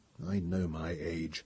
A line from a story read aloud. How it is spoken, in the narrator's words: muttered Pellerat